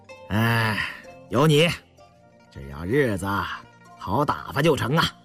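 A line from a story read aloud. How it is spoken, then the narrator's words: Laughing. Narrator (Chinese): 胤祥笑了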